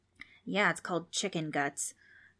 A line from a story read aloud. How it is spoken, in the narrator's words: Trix mumbled under her breath, but still loud enough for everyone to hear